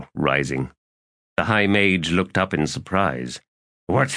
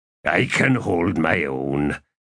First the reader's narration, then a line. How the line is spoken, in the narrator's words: Quick Ben growled